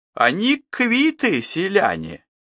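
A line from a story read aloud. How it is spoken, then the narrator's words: Quiet but clear. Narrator (Russian): говорит мамика тихим, но отчетливым голосом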